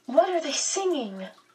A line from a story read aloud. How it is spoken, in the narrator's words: Meg asked excitedly